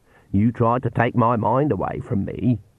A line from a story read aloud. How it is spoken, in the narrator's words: she said in a lower voice